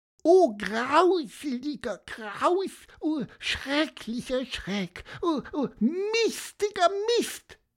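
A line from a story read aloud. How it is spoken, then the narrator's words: Squeaky. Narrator (German): piepste er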